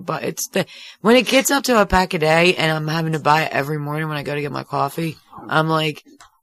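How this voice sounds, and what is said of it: Croaky, frog-like hoarse voice. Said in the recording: “Does it sound bad? I sound like a frog? Dying frog? Stepped on frog? The air from a frog? ... it sounds like a frog to me”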